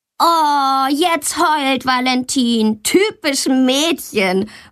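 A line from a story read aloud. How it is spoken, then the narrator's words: Calling out. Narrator (German): ruft Tommy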